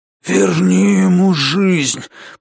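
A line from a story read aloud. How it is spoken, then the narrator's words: Hoarse rasp. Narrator (Russian): прохрипел он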